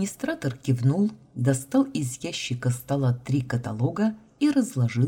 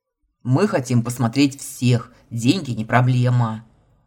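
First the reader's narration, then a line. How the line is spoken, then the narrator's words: Gruff arrogant bark. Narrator (Russian): рявкнул Илья, отлично вживаясь в роль богатого ублюдка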